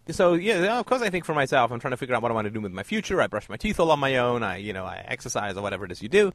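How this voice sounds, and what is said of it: Put-on Valley girl accent. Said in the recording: “You're probably not a Valley girl, but weirdly, I can do the accent”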